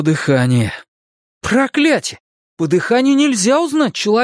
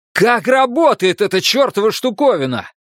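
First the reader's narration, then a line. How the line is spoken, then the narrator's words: Yelling. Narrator (Russian): заорал я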